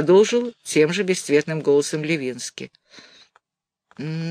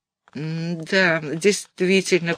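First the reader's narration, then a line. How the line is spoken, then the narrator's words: Mumbled. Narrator (Russian): промямлил Розовский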